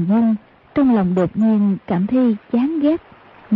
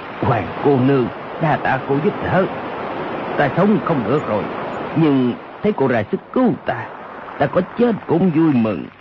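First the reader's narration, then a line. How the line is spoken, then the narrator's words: Low voice. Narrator (Vietnamese): Âu Dương Khắc hạ giọng nói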